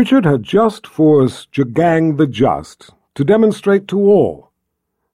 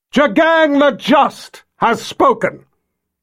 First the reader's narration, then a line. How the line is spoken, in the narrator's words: Nikki shouted out to the crowd, mocking Jagang's decree